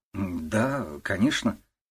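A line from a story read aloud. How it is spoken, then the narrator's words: Uncertain young woman. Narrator (Russian): неуверенно произнесла девушка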